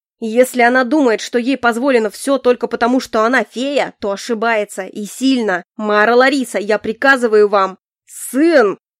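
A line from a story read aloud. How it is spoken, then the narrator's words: Furious, nearly growling. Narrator (Russian): император вышел из себя и тоже готов был рычать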